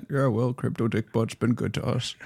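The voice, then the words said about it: Warren Buffett impression, Omaha accent. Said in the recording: “Warren Buffett in his with his Omaha accent.”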